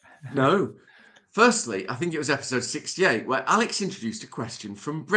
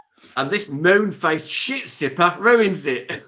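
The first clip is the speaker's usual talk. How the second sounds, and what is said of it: Poor attempt at Australian accent, sounds cockney. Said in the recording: “This has to be in an Australian accent ... That was more cockney than us, straight. That's a terrible accent.”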